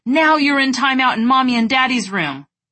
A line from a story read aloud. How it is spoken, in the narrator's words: yelling